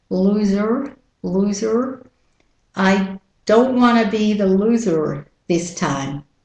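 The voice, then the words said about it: American accent. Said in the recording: “with the American accent”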